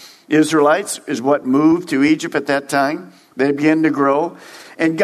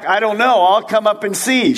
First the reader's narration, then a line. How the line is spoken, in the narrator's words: The 74-year-old yelled back